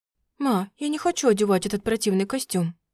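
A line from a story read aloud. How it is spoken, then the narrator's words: Whisper. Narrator (Russian): шептал мне на второе ухо Радей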